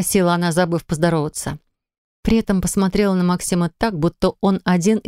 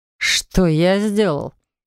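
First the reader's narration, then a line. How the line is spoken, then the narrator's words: Stunned snort. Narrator (Russian): хмыкнул он с обалдевшим видом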